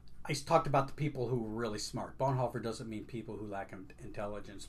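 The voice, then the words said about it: Voice affected, somewhat strained. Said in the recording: “pardon my voice, I'm, I'm dealing with allergies.”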